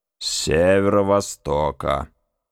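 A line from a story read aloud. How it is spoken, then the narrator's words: Distant grumble. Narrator (Russian): проворчал с другого конца мостика Маквир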